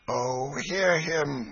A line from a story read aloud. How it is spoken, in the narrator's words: groaned Hugo